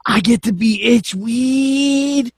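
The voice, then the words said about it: Imitates another person's voice. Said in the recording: “That's my Jeff Hardy impression.”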